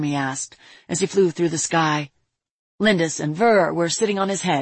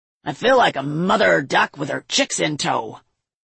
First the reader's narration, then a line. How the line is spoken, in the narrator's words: Lindis snorted